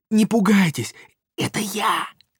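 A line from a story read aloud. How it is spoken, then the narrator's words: Nasal hissing whisper. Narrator (Russian): гнусавом шепоте, похожем на сковородное шипение, голос антрепренера Индюкова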